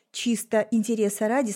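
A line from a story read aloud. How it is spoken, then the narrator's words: Plain. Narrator (Russian): спросила я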